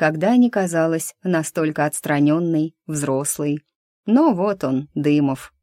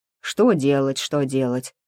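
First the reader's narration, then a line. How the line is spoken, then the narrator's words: Grumbling. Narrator (Russian): проворчал он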